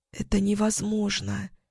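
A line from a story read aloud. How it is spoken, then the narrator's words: Whispered. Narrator (Russian): прошептала я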